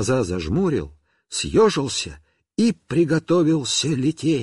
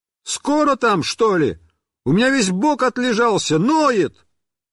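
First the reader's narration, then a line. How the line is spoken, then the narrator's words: Muffled yelling from barrel. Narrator (Russian): я заорал из бочки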